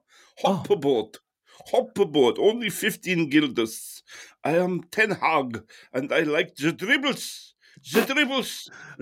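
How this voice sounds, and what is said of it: Put-on Dutch accent, imitating Ten Hag. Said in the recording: “I will do my Dutch accent.”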